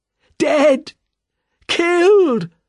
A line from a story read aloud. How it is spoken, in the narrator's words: screamed the man